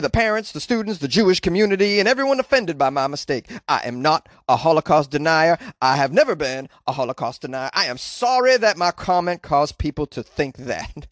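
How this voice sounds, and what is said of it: Imitates another person's voice. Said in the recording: “I hope that was a good impression of him.”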